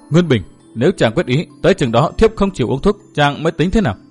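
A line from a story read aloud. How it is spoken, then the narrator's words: Pale, muttering. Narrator (Vietnamese): sắc mặt của Đinh Linh đã xám ngắt, nàng lẩm bẩm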